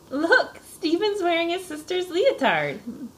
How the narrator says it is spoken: laughed Dana

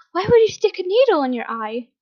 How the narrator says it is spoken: Horrified, Hizashi gasped

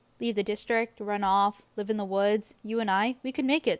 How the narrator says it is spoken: says Gale

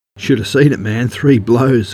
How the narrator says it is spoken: Woodduck laughed

